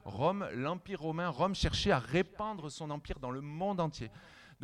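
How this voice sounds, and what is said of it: Non-local French regional accent. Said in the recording (French): “on sent que tu n'es pas d'ici, il y a un accent”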